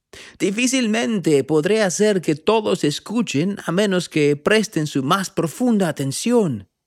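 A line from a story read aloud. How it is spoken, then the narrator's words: Shouting over wind. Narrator (Spanish): gritó el profeta por encima del ruido del viento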